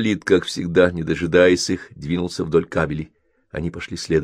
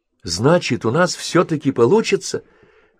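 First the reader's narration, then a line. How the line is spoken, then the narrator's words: Woman exclaiming. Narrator (Russian): воскликнула Линда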